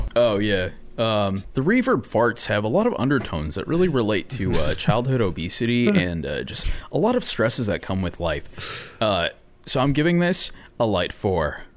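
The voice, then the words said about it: Imitates another person's voice. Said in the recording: “my Anthony Fantano impression”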